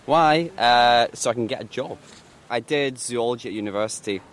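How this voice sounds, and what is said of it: Glasgow Scottish accent. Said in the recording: “That's in Glasgow, as you might be able to tell from my accent.”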